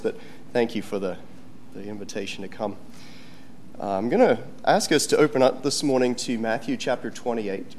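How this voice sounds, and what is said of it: Sick, cough-affected voice. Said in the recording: “I got this terrible cough ... whenever I'm sick, I get this lingering cough ... I apologize for my voice,”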